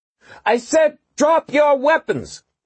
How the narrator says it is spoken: she yelled at the top of her voice

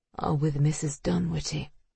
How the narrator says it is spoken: she murmured

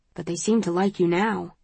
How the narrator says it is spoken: says Will quietly

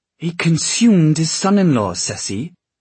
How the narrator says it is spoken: Will snapped

